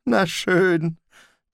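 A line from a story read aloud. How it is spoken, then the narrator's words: Watchman sighing. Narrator (German): Der Tagwächter seufzte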